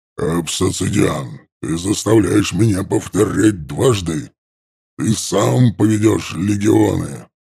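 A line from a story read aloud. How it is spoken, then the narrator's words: Monster's growl. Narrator (Russian): Зарычало чудовище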